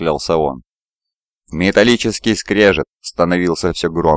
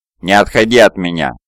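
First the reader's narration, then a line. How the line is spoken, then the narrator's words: Growl. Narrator (Russian): на Вургине прорычал длинный клык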